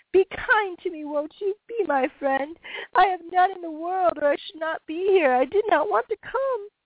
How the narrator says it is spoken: with a passionate cry sobbed piteously

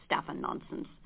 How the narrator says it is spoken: said Drosselmeier gruffly

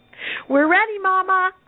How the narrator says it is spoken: called out

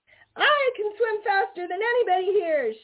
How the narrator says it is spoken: shouted Little Joe Otter

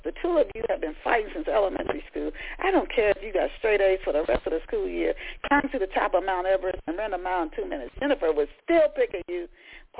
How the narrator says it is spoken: Paulette laughed

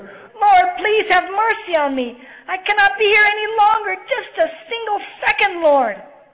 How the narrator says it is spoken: she shouted to the Lord

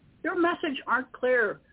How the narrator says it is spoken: I cried, with static in between

